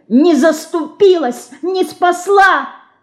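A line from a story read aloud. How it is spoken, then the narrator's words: Angry shout, small creature. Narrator (Russian): гневно кричала мышка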